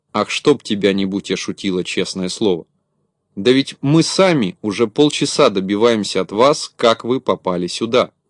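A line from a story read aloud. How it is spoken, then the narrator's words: Plain. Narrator (Russian): сказал Шутило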